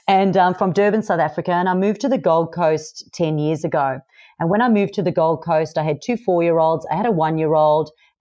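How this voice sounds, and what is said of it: Mixed South African accent. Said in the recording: “I'm originally from South Africa, so you'll hear I've got this mixed accent.”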